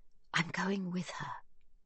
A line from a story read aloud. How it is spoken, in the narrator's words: she whispers